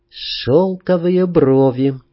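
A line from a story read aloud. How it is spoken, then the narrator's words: Soft singing. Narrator (Russian): пропела тихонько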